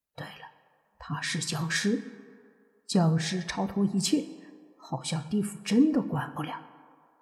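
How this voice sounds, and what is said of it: Quiet, hushed speech. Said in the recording (Chinese): “小声的说道”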